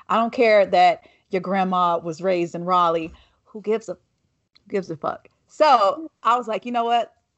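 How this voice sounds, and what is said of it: Southern US accent. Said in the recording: “my accent ... being a Black woman from the South, like, I've only been able to trace my roots to South Carolina”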